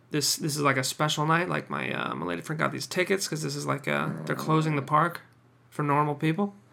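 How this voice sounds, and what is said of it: Voice sounds slightly weird. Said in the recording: “Does my voice sound weird? God, I think it's the hay fever.”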